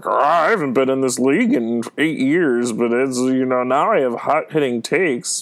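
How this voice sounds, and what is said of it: Kermit the Frog-like voice. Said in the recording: “his voice is very Kermit the Froggy”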